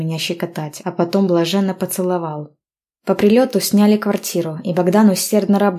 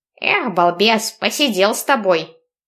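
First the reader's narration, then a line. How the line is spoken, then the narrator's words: Angry old man. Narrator (Russian): вымолвил сердито дедуля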